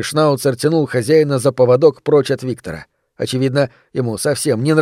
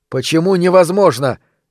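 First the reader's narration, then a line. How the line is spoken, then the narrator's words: Shouting ever louder. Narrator (Russian): Виктор кричал все громче и громче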